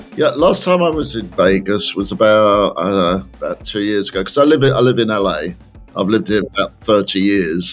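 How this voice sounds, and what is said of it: English accent. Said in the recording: “I'm from the South ... south of London ... the accent's not going”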